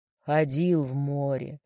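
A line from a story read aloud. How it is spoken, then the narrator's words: Sighing. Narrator (Russian): вздохнул тот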